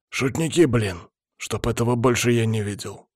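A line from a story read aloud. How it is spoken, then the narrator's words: Stern. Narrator (Russian): строго ответил Палыч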